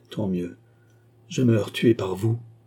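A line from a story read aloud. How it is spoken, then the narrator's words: Murmur. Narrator (French): murmura-t-il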